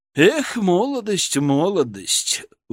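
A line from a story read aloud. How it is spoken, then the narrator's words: Sighing. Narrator (Russian): выдохнул Преображенский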